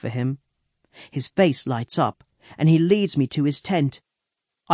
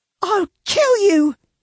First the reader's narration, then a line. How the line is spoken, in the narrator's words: Anne shrieks